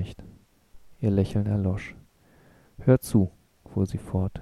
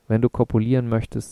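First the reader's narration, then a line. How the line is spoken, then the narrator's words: Plain. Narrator (German): sagte sie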